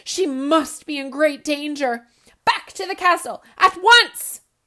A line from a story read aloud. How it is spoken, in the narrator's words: the king gasped